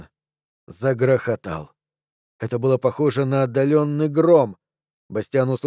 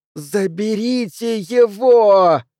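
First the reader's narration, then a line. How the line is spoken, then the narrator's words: Silent mental scream. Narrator (Russian): Изо всех сил, так громко, как только мог, мысленно закричал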